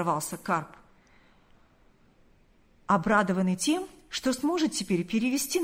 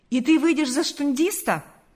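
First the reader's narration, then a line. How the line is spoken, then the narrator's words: Exclamation. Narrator (Russian): воскликнул Карп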